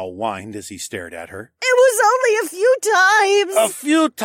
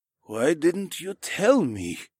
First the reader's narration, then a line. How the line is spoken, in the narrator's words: Niall asked in a soft voice